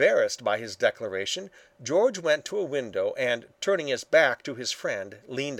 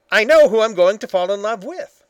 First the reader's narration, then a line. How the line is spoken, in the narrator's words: he said sharply